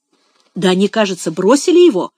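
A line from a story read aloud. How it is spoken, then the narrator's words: Exclaiming. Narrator (Russian): воскликнул Финиас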